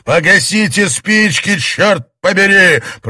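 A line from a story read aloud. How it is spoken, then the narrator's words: Roaring. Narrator (Russian): проревел он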